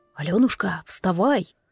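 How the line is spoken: Tender whisper in ear. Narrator (Russian): прошептал на ухо уже полюбившийся мне голос Ивана

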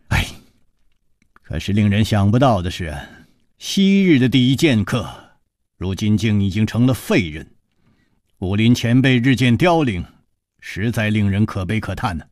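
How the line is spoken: Long weary sigh. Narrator (Chinese): 楚留香长叹说

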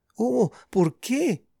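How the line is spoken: Moaned. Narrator (Spanish): gimió Ana

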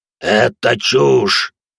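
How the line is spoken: Modified being growling. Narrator (Russian): прорычал в ответ модификант

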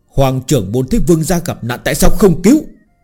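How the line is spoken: Angry shout. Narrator (Vietnamese): Mông Sơn Minh tức giận quát

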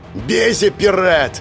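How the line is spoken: Growled. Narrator (Russian): рыкнул Ториан

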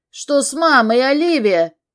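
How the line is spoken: Shouting. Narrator (Russian): кричал я

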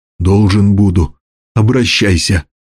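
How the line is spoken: Hoarse wheeze, bear. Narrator (Russian): Медведь прохрипел

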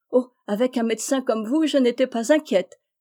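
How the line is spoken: Exclaiming. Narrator (French): s'écria-t-elle

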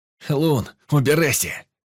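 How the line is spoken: Shouted. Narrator (Russian): крикнул я

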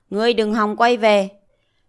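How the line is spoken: Loud laughing. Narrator (Vietnamese): Diệp Chi Thu cười lớn

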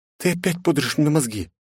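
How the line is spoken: Resigned whisper. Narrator (Russian): обреченно прошептала княжна

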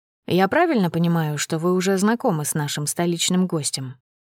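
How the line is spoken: Plain. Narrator (Russian): спросил бессмертный

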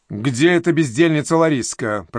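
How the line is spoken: Growled. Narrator (Russian): прорычала

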